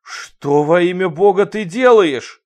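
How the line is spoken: Yelling. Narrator (Russian): заорал Руди

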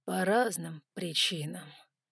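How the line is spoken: Drawn out. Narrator (Russian): протянул

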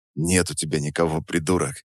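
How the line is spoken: Calm retort. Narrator (Russian): Спокойно парировал я

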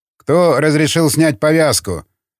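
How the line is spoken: Loud and threatening. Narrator (Russian): громко и угрожающе произнес тот, кто открыл дверь

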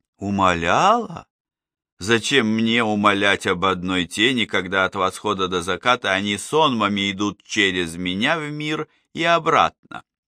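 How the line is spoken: Thundering heavy anger. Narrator (Russian): Ровным тяжелым гневом прогремел Ульген

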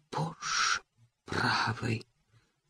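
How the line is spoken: Whisper. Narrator (Russian): Прошептал он

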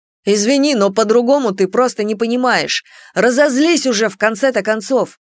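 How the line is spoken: Sharp scolding shout. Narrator (Russian): прикрикнул Громиро

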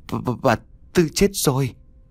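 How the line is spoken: Trembling stammer. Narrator (Vietnamese): run rẩy, ấp úng mới nói đại được một câu

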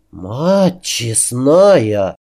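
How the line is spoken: Breathless exclamation. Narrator (Russian): выдохнула стоящая рядом Априя

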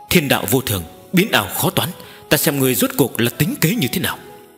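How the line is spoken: Muttering. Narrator (Vietnamese): Nữ hoa lầm bầm nói

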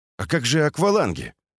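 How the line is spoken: Weary sigh. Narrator (Russian): Доронин устало вздохнул

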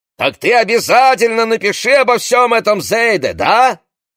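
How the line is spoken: Yelling over engine noise. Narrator (Russian): орал, перекрикивая мотор

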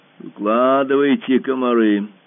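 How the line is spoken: Deep bass voice. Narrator (Russian): сказал аспирант басом

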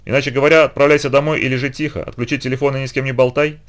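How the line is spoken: Plain. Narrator (Russian): сказал Расти

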